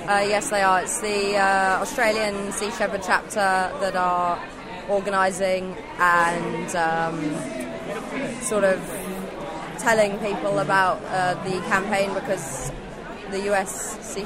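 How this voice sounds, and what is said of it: English accent. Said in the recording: “where'd you get that accent? ... I got that accent from my parents. I'm English”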